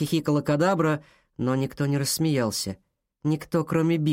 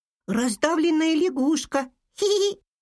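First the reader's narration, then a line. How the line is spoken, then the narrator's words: Squeaky little voice. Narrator (Russian): пропищала мышка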